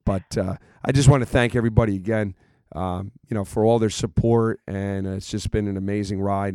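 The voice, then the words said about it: Hoarse, worn-out voice. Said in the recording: “As you can tell, I'm probably losing my voice”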